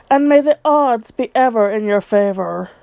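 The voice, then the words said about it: Ridiculous fake Capitol accent. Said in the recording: “In a ridiculous fake capital accent. ... faux British accents”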